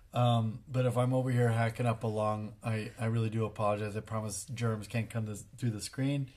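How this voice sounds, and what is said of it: Hoarse, raspy voice from a cold. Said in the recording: “I apologize for my voice. ... I just got a little bit of a cold ... so I sound uh, like a smoker.”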